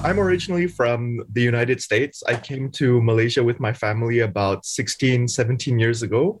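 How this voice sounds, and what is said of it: Malaysian English accent, slight American trace. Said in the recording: “we hear in your accent, there's only a little bit remaining of that American accent. Otherwise, you sound pretty much Malaysian”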